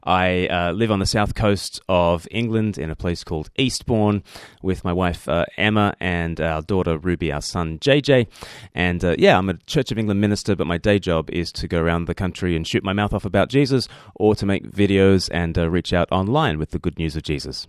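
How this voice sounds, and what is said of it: Mixed Australian-English accent. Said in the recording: “I don't speak with an accent because I'm Australian... Australians think I sound like a pom, and the English think I sound like a convict”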